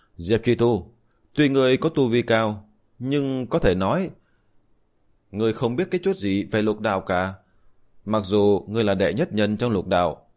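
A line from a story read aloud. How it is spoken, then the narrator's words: Loud laughing. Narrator (Vietnamese): Minh Hà lão tổ cười lớn nói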